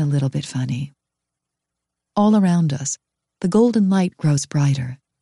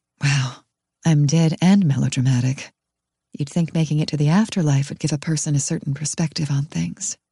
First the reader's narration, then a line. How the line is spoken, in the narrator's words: says gently